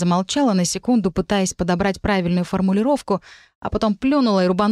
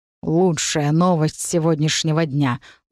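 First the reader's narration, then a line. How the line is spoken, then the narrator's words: Gruff mutter. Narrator (Russian): буркнул Сигизмунд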